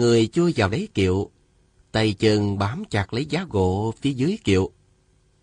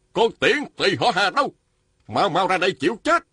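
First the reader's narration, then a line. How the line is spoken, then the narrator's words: Man shouting. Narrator (Vietnamese): Một nam nhân quát lên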